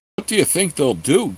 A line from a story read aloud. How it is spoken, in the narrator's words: Geller asked in a worried tone